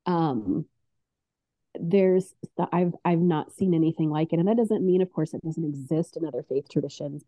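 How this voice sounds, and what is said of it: Tearful, emotional voice. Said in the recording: “as you can hear in my voice, moved to tears”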